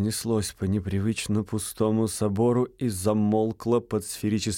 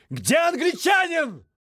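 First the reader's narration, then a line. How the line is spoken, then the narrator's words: Booming shout. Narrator (Russian): он громогласно выкрикнул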